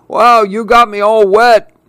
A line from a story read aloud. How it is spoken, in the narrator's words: chuckles Grandpa